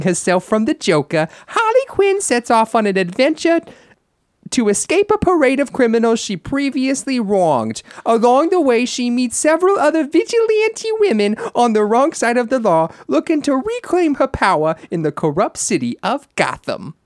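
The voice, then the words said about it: Imitates female comic book character voice. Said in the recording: “it's scary how good you are at that ... impersonating a female ... a comic book character ... my audition for any any future Margot Robbie voiceover”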